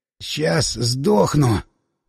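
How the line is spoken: Hoarse wheeze. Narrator (Russian): прохрипел Андрюха

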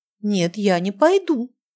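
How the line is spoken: Exclaiming. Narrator (Russian): воскликнула Анжелика

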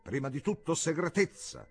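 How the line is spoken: Rude, contemptuous shout. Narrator (Italian): gridò senza neanche salutarlo e trattandolo come uno sguattero

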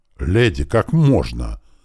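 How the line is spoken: Offended exclamation. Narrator (Russian): с видом оскорбленного достоинства воскликнул Ардун

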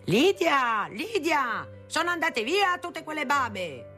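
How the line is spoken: Father yelling loudly. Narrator (Italian): dal suo studio mio padre urlava a gran voce

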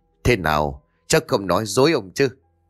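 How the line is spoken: Loud laugh then speaking. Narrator (Vietnamese): cậu béo cười lớn rồi nói

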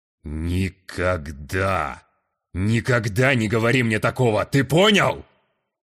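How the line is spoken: Growled like a bear. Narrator (Russian): прорычал он, словно разбуженный зимой медведь

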